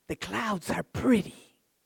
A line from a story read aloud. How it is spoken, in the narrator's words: the teacher whispered